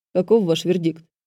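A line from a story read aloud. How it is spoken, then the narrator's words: Dry official tone. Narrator (Russian): спросил Джесс сухим официальным тоном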